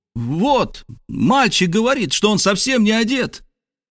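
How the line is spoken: Crowd shouting. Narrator (Russian): закричал, наконец, весь народ

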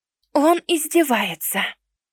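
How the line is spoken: Soft whisper. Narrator (Russian): Тихонько шепчет

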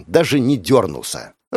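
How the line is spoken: Disappointed, breathless exhale. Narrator (Russian): разочарованно выдохнула девушка, восстанавливая дыхание

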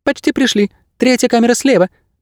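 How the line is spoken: High squeaky voice. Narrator (Russian): пропищал проводник

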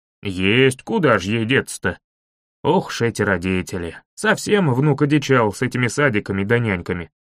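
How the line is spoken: Old man grumbling into mustache. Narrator (Russian): Проворчал дедушка в свои шикарные усищи

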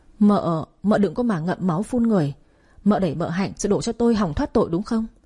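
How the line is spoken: Stammering. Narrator (Vietnamese): Vũ Quý lắp bắp

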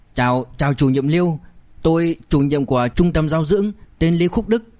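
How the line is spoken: Breathless trembling speech. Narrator (Vietnamese): lão mập vội vàng, vừa thở hổn hển vừa run rẩy nói

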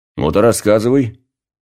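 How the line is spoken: Commanding tone. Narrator (Russian): сказал я самым что ни на есть приказным тоном

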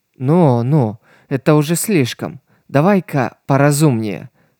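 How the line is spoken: Rueful sigh. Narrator (Russian): сокрушенно вздохнула Лиса

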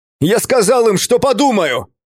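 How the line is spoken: Shout, voice cracking. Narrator (Russian): крикнул я, и мой голос сорвался

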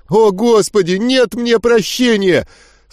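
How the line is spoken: Renewed wailing. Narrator (Russian): С новыми силами взвыл Говард

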